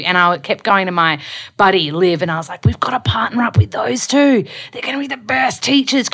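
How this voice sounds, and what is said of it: Australian accent. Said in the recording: “with this Aussie vernacular, which I know I have as well. Like my voice is very Australiana”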